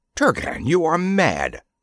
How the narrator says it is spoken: cried Damis

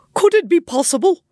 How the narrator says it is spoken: cried the lord-in-waiting

